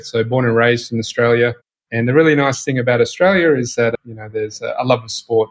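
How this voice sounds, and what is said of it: Australian accent. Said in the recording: “you probably tell from my accent, I'm from Australia”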